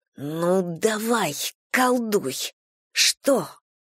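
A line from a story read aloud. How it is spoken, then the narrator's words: Strange hissing voice. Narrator (Russian): И сама свой голос не узнала, так могли бы шипеть Юрой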